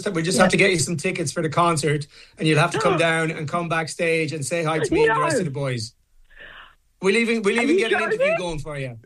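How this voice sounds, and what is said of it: Put-on Irish accent. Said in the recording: “putting on an adorable Irish accent”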